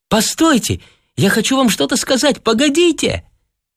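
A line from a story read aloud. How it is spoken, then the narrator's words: Weak girl's call. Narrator (Russian): Слабо крикнула девушка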